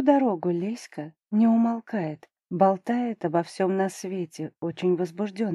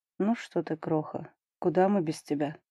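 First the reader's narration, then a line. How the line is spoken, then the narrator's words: Mumble. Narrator (Russian): бормочет Дубровский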